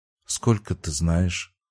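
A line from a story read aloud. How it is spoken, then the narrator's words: Quiet question. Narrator (Russian): спросила негромко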